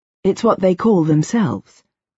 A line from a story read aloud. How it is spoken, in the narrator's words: I explained in my most patient voice